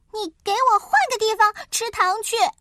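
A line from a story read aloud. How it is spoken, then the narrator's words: Loud command. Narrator (Chinese): 他大声的命令着老虎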